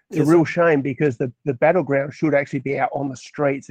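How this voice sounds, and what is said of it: Speaker with a noticeable accent. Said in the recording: “Love your accent”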